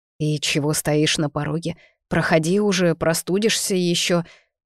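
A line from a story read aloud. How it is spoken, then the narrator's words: Grumbling. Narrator (Russian): проворчал месье Харви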